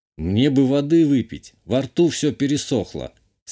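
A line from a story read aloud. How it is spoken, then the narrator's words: Calm statement and question. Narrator (Russian): спокойно сказал и поинтересовался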